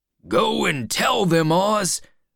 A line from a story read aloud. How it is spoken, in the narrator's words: one man shouted